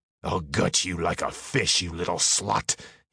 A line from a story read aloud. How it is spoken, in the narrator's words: growled